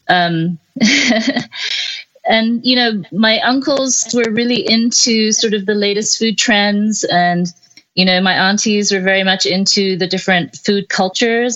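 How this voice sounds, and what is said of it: Mixed British and American accent. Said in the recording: “your accent ... It sounds like a little bit British, a little bit American.”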